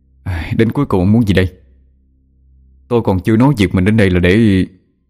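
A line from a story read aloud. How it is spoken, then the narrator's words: Sighing. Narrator (Vietnamese): Thở dài một hơi, cậu nói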